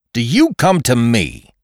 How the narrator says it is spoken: he shouted

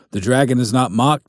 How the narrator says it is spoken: called out

